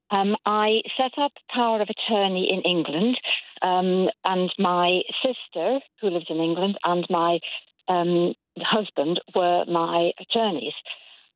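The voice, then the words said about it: English accent. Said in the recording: “You'll tell from my accent, I was born and brought up in England.”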